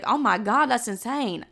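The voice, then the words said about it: Southern accent slips out. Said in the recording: “what was that? That was like my Southern accent.”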